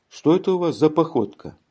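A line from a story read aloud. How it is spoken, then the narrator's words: Cheerful laughing swagger. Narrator (Russian): сказал он, весело смеясь, с развальцем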